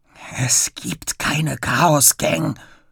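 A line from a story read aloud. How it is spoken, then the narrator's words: Annoyed whisper. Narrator (German): flüstert er genervt zurück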